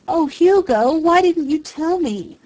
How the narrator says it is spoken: Karen Marshall wailed

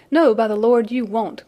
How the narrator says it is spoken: cried Sandy

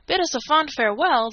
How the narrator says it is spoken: the Canadian exclaimed

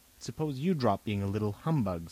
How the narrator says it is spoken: said Robert, but not crossly

